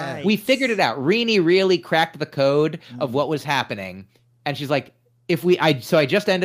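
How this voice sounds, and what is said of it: Usual voice. Nothing is said of it.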